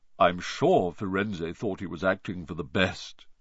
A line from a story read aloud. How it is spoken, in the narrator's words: he said in his gloomy voice